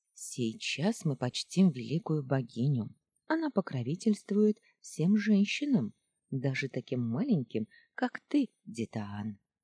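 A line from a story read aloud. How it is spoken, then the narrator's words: Soft whisper to child. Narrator (Russian): тихо прошептала Хейлиин дочке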